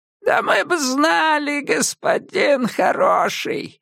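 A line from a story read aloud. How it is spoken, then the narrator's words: Creaky voice. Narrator (Russian): проскрипела Сэл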